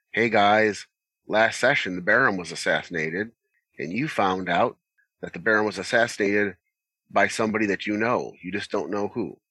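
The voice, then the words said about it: Flat monotone delivery. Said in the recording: “Hopefully, you don't do it quite as monotone as I did there.”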